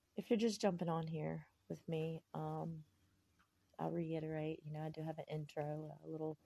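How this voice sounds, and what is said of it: Congested, stuffy-nosed voice. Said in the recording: “Excuse my voice. I'm a little snotty today”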